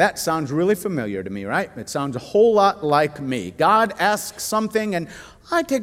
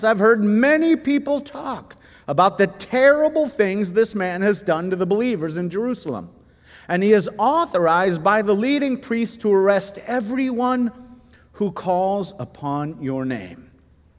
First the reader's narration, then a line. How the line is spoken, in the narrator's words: exclaimed